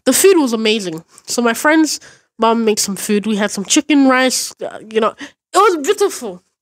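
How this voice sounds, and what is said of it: Put-on accent. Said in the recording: “Why am I doing accents?”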